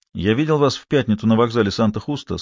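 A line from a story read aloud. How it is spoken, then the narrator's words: Plain. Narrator (Russian): сказал доктор Фернандо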